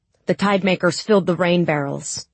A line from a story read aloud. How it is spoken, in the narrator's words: she said